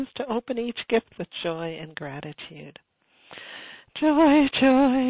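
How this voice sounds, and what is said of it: Usual voice. Nothing is said of it.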